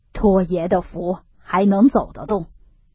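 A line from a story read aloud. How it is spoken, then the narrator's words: Smiling reply. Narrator (Chinese): 忽进孝笑回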